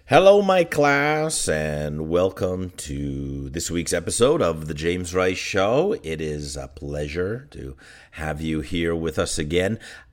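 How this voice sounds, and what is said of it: Hoarse voice with a cold. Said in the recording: “you can maybe hear it in my voice a little bit. I have a summer cold ... kind of a frog in my throat. You can hear that frog in my throat.”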